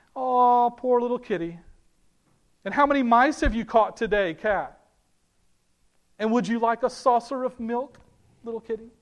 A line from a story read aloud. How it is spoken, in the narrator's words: jeering at him, saying things like